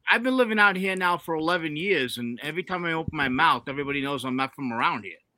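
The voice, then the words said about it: Thick regional American accent. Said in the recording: “it's super thick ... Something that's like that thick”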